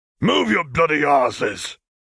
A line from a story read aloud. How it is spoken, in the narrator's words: He roared